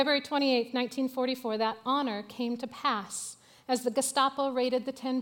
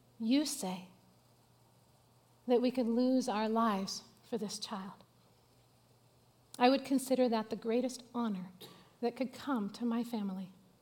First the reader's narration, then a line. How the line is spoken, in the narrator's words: very, very calmly, he said